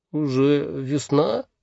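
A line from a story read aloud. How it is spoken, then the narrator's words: Mumbling. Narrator (Russian): пробормотал мумитроль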